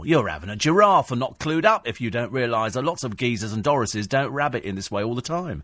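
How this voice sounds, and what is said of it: Exaggerated Cockney accent. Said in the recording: “Cockney ... trading on the urban tongue”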